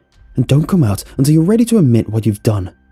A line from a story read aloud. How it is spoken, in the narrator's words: said angrily